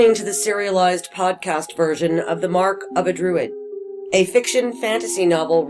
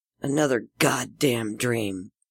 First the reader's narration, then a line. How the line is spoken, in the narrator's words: she muttered